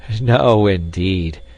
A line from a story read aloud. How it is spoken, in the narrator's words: Peter laughed